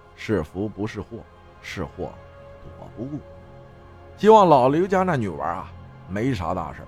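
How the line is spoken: Father sighing. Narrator (Chinese): 他爸叹了一口气说

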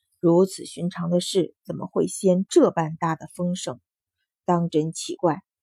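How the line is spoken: Sighing. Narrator (Chinese): 公孙宁叹道

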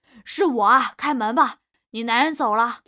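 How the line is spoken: Calling out loudly. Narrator (Chinese): 大哥冲里面喊

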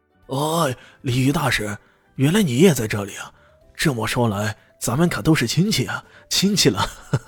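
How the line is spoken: Cheerful, laughing. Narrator (Chinese): 二姨爹冲李炫笑呵呵的说道

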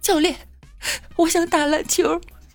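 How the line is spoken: Crying boy. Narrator (Chinese): 讨厌的男生 哭着说

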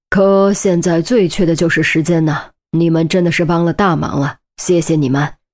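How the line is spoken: Sighing. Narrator (Chinese): 雷斯垂德叹道

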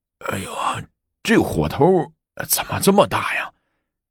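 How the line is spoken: Nervous, half-sober muttering. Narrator (Chinese): 薛怀义也有些紧张，酒醒了大半，嘴里咕哝着

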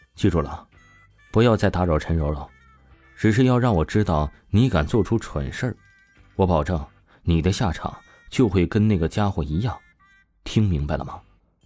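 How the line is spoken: Calm, flat. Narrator (Chinese): 王峰淡淡的说道

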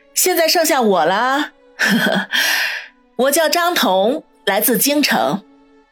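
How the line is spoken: Faint calm laugh. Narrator (Chinese): 白肤女人才淡淡的笑道

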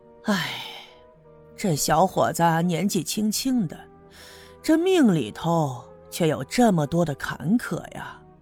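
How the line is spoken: Sighing. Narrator (Chinese): 六姑摇了摇头，叹了口气

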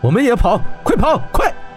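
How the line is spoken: Shouting. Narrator (Chinese): 霍真朝大伙喊道

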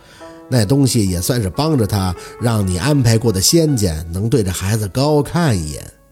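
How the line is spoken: Flat calm reply. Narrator (Chinese): 舅老爷淡淡的答道

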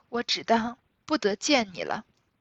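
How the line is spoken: Choked with emotion. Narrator (Chinese): 又惊又喜，又悲又痛，哽咽了半日，方说出半句话来

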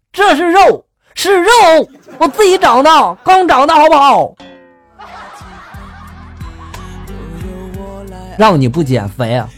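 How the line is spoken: Loud angry roar. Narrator (Chinese): 我朋友愤怒的大声的就吼道

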